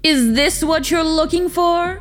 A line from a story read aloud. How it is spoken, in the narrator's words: he called out